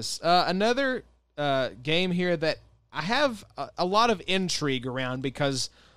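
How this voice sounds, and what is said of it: Usual voice. Nothing is said of it.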